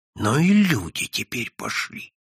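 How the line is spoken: Exclaiming. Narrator (Russian): воскликнул Прозрачный

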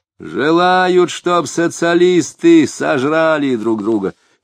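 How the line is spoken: Angry shout. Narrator (Russian): сердито крикнул Хотяинцев

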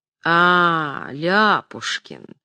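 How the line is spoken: Condescending tone. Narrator (Russian): произнесла покровительственным тоном Орлеанская

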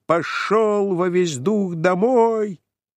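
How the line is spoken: Shouting in a strange voice. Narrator (Russian): закричал кучеру не своим голосом

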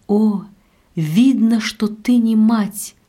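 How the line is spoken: Exclaimed, marquise. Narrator (Russian): воскликнула маркиза

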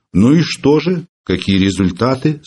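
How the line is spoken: Stern question. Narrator (Russian): строго спросил Филипп Филиппович

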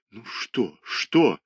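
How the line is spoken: Muttering. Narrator (Russian): бормотал художник

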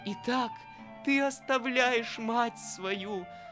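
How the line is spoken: Exclamation. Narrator (Russian): воскликнула Марья Александровна

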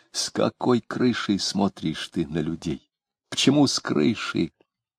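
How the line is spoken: Agitated whisper. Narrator (Russian): яростно размахивая руками, он спросил почему-то шепотом

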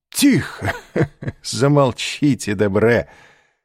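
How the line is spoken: Laughing. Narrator (Russian): сказал, смеясь, Башан

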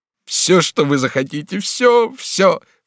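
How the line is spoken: Sobbing outcry. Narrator (Russian): вскричал Бонифас, падая на колени и рыдая

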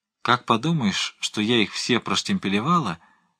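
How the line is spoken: Sighing, mock horror. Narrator (Russian): вздохнула госпожа Тейр, с притворным ужасом

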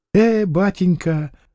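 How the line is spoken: Gentle, affectionate speech. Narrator (Russian): заговорил он ласково

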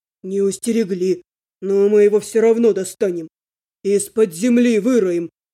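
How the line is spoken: Growling. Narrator (Russian): рыкнул Эйвин

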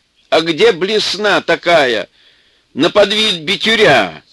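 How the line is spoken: Yelling from another room. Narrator (Russian): орал Чудик из кладовой

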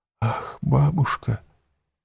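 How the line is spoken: Whispered. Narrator (Russian): прошептала Валентина

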